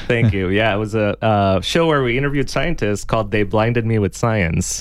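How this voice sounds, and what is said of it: Smooth, rich radio-style voice. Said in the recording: “You have a radio voice ... we can tell you have golden tones”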